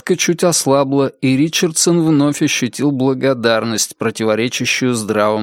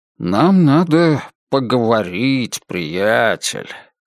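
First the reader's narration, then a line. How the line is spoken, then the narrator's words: Soft, kindly. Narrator (Russian): мягко и доброжелательно произнес Санни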